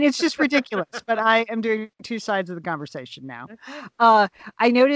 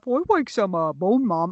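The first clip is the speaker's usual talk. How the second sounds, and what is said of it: Silly dog voice. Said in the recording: “I'm responding to myself in a dog voice”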